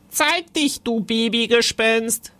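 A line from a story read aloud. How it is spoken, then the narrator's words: Called out. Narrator (German): rief Timon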